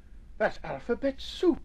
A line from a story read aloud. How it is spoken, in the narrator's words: exclaimed Nubbit